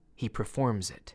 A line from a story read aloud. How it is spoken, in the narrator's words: Laura gently corrected me